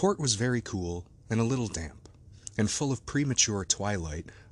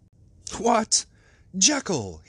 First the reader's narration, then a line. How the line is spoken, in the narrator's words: he cried